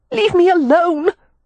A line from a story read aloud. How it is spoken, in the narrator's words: Wynne cried